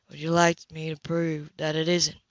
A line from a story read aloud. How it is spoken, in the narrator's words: He asked quietly